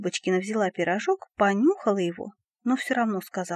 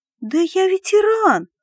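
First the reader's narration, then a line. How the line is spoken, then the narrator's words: Shouted. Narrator (Russian): закричал Дебиленко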